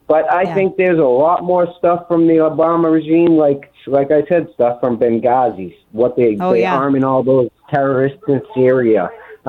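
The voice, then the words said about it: Boston accent. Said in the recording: “love that Boston accent”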